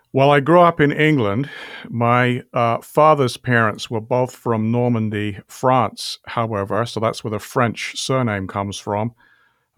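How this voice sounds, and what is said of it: British accent. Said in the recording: “you have kind of an accent ... you have a British accent”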